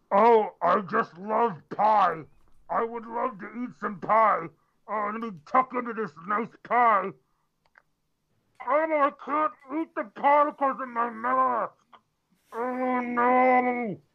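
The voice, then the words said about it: Imitates another person's voice. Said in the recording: “my impression of that guy's name on the chat”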